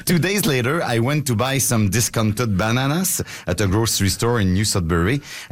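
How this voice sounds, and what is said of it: French accent speaking English. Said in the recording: “Marcus Schwabi's French friend ... she recognized my accent”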